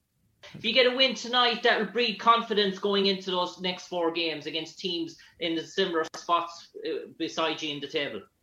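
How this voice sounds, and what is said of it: Irish accent. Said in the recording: “Ireland ... I like your accent. It's tough. I want to learn how to talk like that.”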